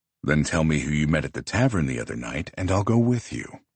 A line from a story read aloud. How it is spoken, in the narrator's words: he says, his voice silky smooth